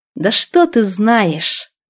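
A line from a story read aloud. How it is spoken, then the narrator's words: Hissing. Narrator (Russian): зашипела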